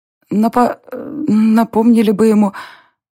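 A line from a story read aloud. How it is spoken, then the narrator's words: Forced out, strained. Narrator (Russian): выдавила Даша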